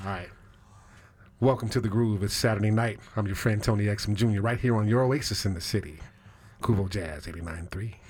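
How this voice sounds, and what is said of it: Slow, smooth jazz radio host voice. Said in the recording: “do my jazz voice ... you got to slow down ... Give me your best jazz voice”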